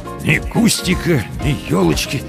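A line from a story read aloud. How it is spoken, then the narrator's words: Dejected mutter. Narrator (Russian): сокрушенно пробормотал Комаровский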